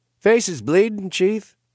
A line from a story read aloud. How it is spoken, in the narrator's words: Waylay cheerfully observed